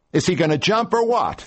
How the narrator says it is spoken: the fireman shouted

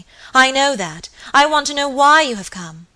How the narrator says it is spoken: cried Lady Audley, impatiently

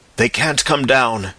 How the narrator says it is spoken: panted Ostrog

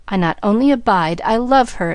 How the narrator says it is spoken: exclaimed Rebecca

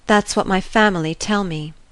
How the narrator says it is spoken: she murmured at length

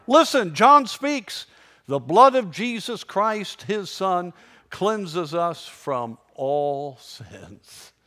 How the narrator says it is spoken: Suddenly he cried

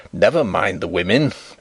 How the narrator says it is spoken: growled Sapt

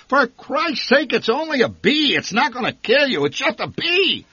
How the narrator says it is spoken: The old man shouted above her shrieks

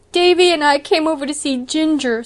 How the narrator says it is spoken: sobbed Dora

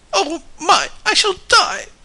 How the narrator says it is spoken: moaned

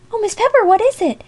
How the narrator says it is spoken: cried Amy Lockhead, brought out of her own fright by the dread of a new trouble

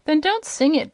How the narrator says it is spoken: begged Bilbil

